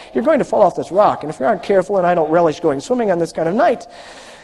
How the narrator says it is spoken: Emmanuel laughed heartily but managed to caution Ebby

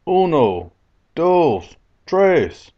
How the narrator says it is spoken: I cried out

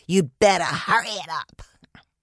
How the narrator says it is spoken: she hissed

